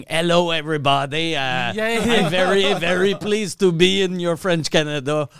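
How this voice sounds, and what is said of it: English with thick Quebec French accent. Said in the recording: “speak English, but with a thick Quebec accent”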